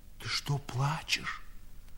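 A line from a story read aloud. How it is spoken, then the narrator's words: Old man's whispered question. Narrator (Russian): шепотом спросил старик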